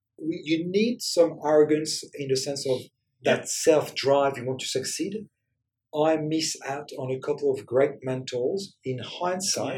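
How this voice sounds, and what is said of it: French accent. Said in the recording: “I might sound crazy for some of your auditors because of the French accent”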